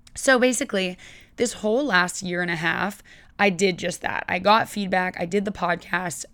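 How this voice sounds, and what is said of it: Scratchy, hoarse voice. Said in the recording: “I have lost it a little bit. It's been going in and out... a little bit scratchy and hoarse”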